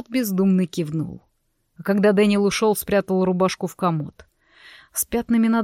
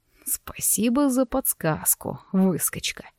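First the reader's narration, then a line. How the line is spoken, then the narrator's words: Muttered. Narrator (Russian): пробормотал Влад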